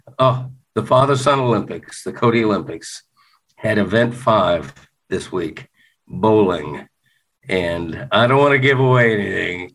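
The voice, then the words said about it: Excited, smiling voice. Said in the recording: “why are you smiling so much? ... you can probably hear in my voice. I'm so excited.”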